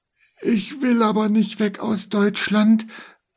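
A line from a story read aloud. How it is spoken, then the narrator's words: Fearful man speaking. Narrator (German): sagte der Mann ängstlich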